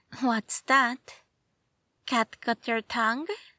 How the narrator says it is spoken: the woman practically purred

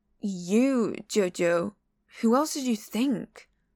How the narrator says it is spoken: Aling crosses his arms and sighs

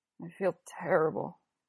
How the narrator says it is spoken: he says, mumbling

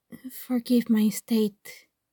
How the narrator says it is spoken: he says quietly

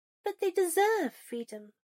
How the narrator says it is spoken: Granger pressed, eyes nearly pleading

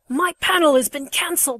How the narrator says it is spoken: snarls

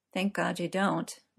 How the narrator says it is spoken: Merlin muttered into his coffee

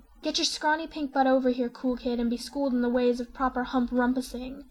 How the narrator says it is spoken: Terezi commands breathlessly

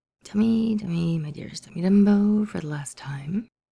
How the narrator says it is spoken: Tony mutters

